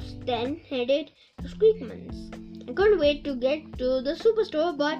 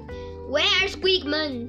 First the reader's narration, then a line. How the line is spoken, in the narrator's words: Someone shouted